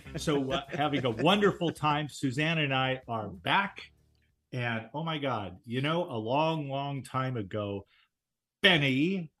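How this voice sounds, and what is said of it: New York accent. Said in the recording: “You have not lost your New York accent.”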